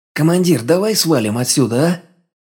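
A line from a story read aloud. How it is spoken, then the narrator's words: Sudden near-moan. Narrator (Russian): Неожиданно едва ли не простонал Кола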